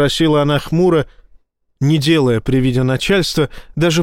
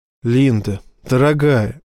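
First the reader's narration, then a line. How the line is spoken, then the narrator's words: Very gentle. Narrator (Russian): сказал Боровский очень мягко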